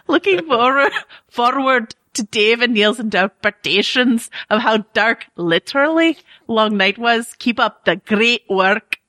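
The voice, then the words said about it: Heavy put-on burr accent. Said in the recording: “I just thought I'd throw like a lot of burr on it at the end ... that's an embarrassing accent thing”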